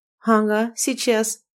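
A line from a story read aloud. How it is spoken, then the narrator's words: Snide snort. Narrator (Russian): ехидно фыркнула Инна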